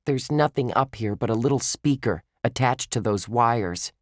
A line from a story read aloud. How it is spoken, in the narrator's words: she said